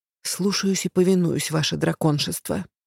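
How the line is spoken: Quiet mutter. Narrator (Russian): пробормотала я тихо

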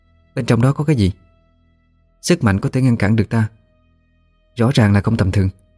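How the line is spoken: Soft question. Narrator (Vietnamese): khẽ hỏi

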